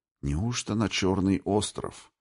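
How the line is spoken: Barely audible whisper. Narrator (Russian): чуть слышно прошептал он

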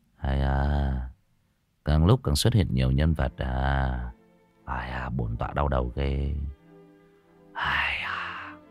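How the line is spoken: Quiet muttering. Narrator (Vietnamese): A Tú lặng lẽ trong miệng lẩm bẩm

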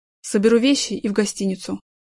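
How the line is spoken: Cold. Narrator (Russian): холодно сказал он

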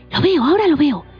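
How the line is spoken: Hissed. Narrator (Spanish): siseó Gimli

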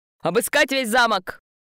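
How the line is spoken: Very loud distant yell. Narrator (Russian): Кто-то заорал на другом конце коридора так громко

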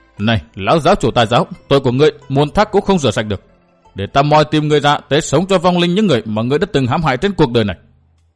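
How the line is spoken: Harsh, menacing tone. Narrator (Vietnamese): cậu gằn giọng nói với ma đầu

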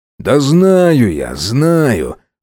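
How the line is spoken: Displeased grumbling. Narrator (Russian): недовольно проворчал он

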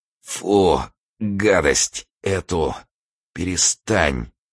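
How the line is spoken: Muttering. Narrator (Russian): бормотал Турбин

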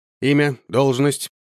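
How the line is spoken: Curt question. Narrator (Russian): отрывисто спросил я

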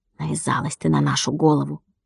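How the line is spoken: Whispered. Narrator (Russian): Владик шепотом сказал

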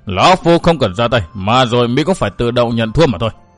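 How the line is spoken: Cold sneering laugh. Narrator (Vietnamese): Quái nhân bịt mặt cười nhạt

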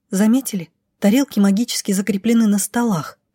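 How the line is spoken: Whisper. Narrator (Russian): шепнула Роша

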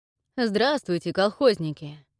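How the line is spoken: Good-natured guard, chuckling. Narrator (Russian): Добродушно поздоровался с нами стражник и хохотнул

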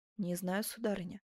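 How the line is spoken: Soft and sad. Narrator (Russian): проговорила Асканио мягко, и с той грустью, которую испытывают чистой душой люди, когда им приходится в ком-либо усомниться

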